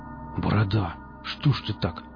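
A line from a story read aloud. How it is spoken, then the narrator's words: Mutter. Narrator (Russian): пробормотал Никита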